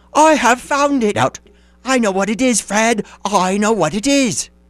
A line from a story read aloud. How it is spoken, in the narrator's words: the plump sister cried out